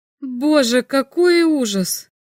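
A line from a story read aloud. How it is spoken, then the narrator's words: Moan. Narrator (Russian): простонал Лори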